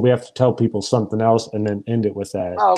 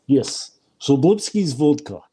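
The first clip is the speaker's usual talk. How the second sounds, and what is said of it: Put-on Russian accent. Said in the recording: “That's pretty good. I like that Russian accent.”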